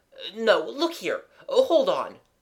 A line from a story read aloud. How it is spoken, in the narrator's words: cried Gerald